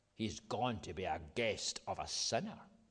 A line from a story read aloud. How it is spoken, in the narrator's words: All the people began to mutter